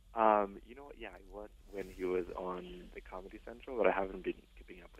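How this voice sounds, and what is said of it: Speaking very softly. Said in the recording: “you're talking really softly”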